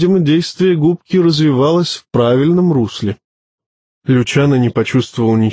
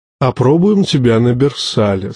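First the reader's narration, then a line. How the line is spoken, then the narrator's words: Plain. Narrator (Russian): сказал маэстро Карл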